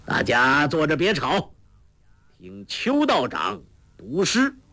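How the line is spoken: Laughing. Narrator (Chinese): 笑道

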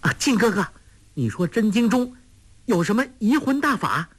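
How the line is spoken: Startled cry. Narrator (Chinese): 立时便似从梦中惊醒，叫道

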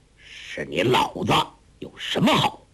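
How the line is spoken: Hoarse voice. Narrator (Chinese): 外边一个人沙哑了嗓子说

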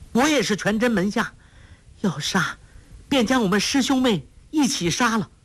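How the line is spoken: Shouting. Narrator (Chinese): 程瑶家叫道

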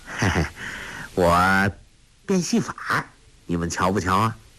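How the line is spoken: Cheerful grin. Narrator (Chinese): 朱聪…笑嘻嘻地说

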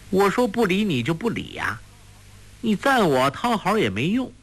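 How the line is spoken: Laughing. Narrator (Chinese): 黄蓉笑道

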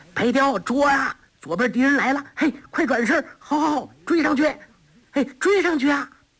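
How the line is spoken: Group cheering loudly. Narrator (Chinese): 三个人不住口的为白雕呐喊助威

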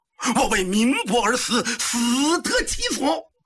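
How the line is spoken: Shouting with full strength. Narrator (Chinese): 刘福记尽力高呼

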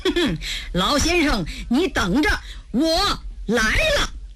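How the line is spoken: Cold sneer. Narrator (Chinese): 承志冷笑一声

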